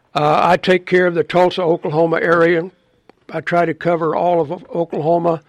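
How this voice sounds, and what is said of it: Rough, congested-sounding voice. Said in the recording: “Excuse my voice. My allergies are really bothering me.”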